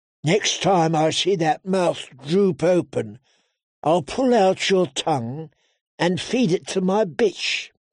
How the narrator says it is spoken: Wheeze purred

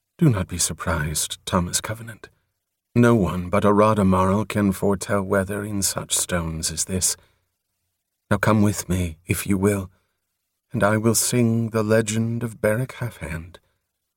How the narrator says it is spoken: Atiaran said kindly

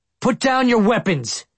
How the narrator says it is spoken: Hatch shouted

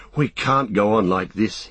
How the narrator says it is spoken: he panted

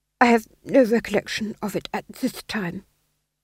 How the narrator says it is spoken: he murmured

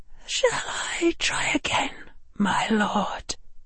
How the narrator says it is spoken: she whispered

